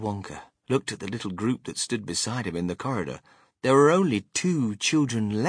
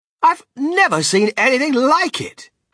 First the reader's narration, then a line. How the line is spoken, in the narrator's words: cried Mr